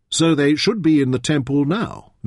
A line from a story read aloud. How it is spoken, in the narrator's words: Merrin asked